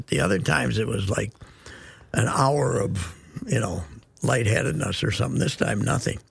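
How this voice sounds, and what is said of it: Hoarse voice. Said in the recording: “maybe that's why I'm so hoarse.”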